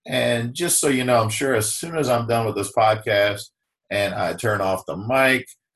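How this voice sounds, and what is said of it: Scratchy, congested voice. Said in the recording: “my voice is a little scratchy, dealing with a little bit of sinus drip, a little bit of scratchy throat.”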